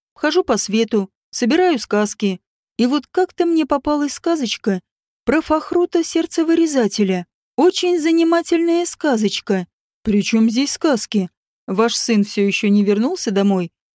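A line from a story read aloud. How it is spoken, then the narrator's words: Innocent, casual question. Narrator (Russian): Невинным тоном, будто бы невзначай, спросил Рори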